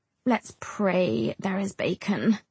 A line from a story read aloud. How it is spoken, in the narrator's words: I mumble back